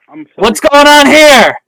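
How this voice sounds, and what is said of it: Very loud, screaming voice. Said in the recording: “He's so loud. ... He's screaming at us.”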